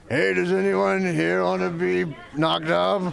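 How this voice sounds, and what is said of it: Imitates another person's voice. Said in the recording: “your impression of Seth Rogen that you've been perfecting ... That's not it. ... That's good.”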